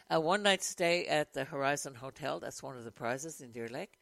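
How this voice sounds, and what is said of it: Hoarse, croaky throat. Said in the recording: “I have a frog in my throat this morning”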